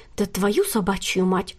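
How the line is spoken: Whispered curse. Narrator (Russian): шепотом выругалась Кристина

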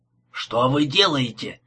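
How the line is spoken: Angry question. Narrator (Russian): сердито спросил шофер

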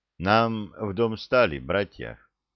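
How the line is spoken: Quiet young man. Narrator (Russian): негромко сказал юноша

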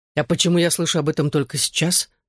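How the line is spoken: Forced impassive question. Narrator (Russian): спросил я, стараясь говорить бесстрастным тоном

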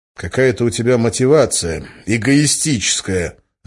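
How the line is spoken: Angry. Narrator (Russian): зло сказал я

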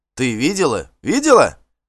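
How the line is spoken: Overlapping shouts. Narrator (Russian): наперебой кричали они

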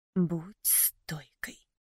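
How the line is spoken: Whisper. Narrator (Russian): шептала боль

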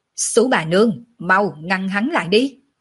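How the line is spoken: Loud shout. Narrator (Vietnamese): Tiểu Lôi lớn tiếng quát

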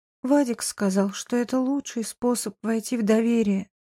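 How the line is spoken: Sighed, female. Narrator (Russian): вздохнула Саша

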